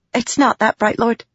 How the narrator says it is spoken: Shallan said quickly

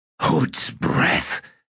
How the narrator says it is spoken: hissed Cuttle

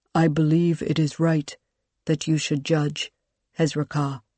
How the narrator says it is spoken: Kurush said, his voice as calm and even as she'd ever heard

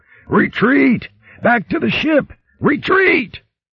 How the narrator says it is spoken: yelling hoarsely

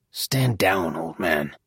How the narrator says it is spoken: though murmured, Gaspard's voice still reverberated through the quiet room

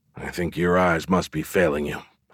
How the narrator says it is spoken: muttered

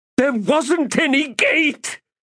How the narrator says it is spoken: the mage shrieked

